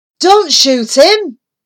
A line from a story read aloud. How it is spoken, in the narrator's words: shouted Norman